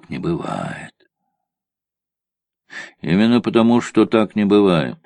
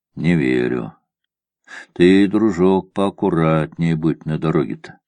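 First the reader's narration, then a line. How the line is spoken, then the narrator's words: Calm. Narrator (Russian): сказал спокойно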